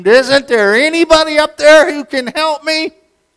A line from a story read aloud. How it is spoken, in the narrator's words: he screamed